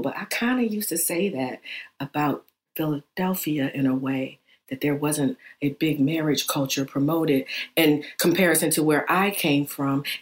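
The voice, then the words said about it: Whispering. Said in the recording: “You're whispering. ... I'm whispering because I feel bad that I'm saying this out loud”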